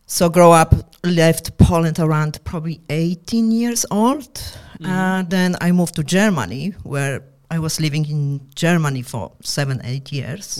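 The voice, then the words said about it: Heavy non-native English accent. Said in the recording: “your accent is very, very heavy. Like, I feel like you didn't grow up around here, around Australia.”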